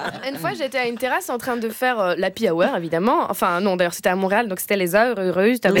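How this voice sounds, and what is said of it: Usual voice. Nothing is said of it.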